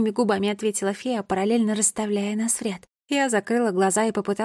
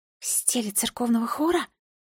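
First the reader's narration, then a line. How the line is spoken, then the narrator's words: Whispered question. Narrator (Russian): шепотом уточнила я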